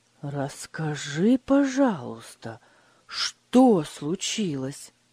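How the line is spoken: Gentle, calm question. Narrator (Russian): мягко спросил Фридрих, стараясь сохранить спокойствие

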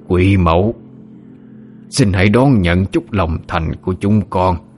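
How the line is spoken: Deep hoarse invocation. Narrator (Vietnamese): với một giọng trầm khàn, hắn ta trích lên

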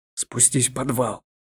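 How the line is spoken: Through gritted teeth. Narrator (Russian): сквозь зубы процедил метаморф

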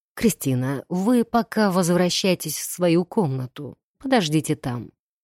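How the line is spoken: Fairly soft. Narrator (Russian): довольно мягко произнес Нрадей

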